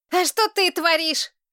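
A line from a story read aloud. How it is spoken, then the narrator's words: Boy's heated shout. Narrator (Russian): крикнул запальчиво мальчишка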